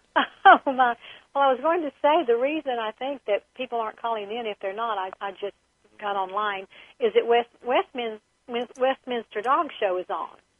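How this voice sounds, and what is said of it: Southern US accent. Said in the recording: “you have a gorgeous Southern accent”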